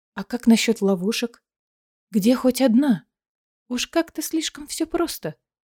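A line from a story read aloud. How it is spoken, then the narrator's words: Quiet question. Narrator (Russian): Айлина негромко спросила у Рована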